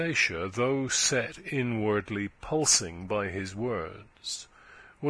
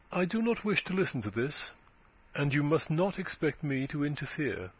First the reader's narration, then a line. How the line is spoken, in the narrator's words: She replied coldly